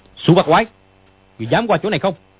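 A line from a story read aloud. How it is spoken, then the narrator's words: Shout. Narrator (Vietnamese): Dương Quá quát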